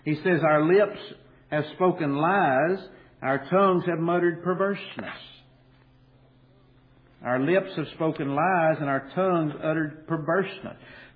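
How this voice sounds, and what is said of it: Kentucky accent. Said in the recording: “the Kentucky accent will leave my voice. Maybe. It's doubtful.”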